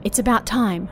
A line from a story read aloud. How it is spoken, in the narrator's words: sister whispered